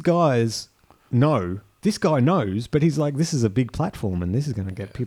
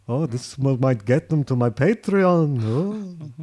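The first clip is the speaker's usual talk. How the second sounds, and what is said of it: Bad put-on accent. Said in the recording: “That's a bad accent.”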